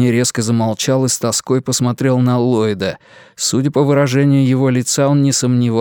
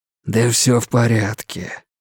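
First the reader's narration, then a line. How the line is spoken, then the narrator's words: Soft reply. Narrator (Russian): мягко ответил Ллойд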